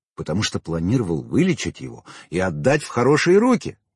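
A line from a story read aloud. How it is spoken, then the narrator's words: Hurried reply. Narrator (Russian): торопливо ответил я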